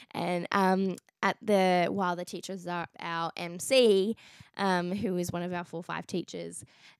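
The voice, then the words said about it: Strained, fading voice. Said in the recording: “I'm losing my voice a little bit.”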